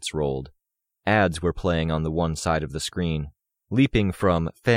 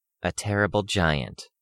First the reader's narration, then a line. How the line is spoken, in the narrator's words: Ashley said, her voice dry